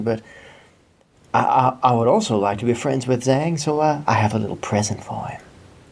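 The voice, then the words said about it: Character voice with southern accent. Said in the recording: “every southern accent ... does is evil”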